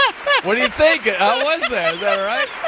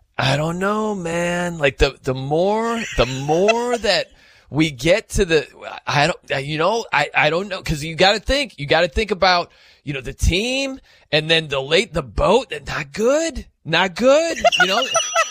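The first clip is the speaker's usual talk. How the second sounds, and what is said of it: Imitates another person's voice. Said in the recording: “let me try to do my Patty impression... Here's my Patty impression... You got the mannerisms down”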